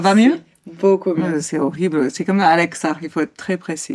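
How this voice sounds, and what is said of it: Usual voice. Nothing is said of it.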